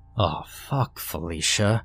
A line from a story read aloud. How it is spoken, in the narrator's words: he mumbled